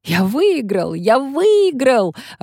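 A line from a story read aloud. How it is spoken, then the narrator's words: Joyful yell. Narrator (Russian): радостно заорал Мартино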